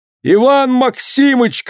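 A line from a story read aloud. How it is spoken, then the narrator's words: Shout. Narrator (Russian): крикнул Акилка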